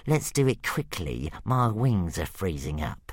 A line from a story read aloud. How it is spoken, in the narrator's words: grumbled Brightclaw